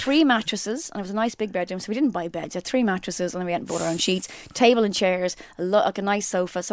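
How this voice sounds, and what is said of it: Usual voice. Nothing is said of it.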